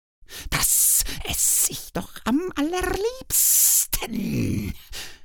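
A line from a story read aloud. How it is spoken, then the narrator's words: Hissed. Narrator (German): zischte sie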